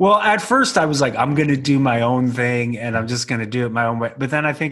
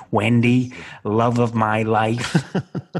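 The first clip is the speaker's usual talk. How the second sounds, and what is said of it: Imitates another person's voice. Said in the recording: “it almost sounds like you're doing an impression of Jack”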